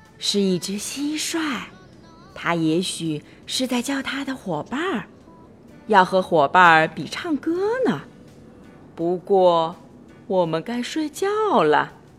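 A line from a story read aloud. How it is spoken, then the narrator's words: Soft reply. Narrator (Chinese): 巴蒂轻声的回答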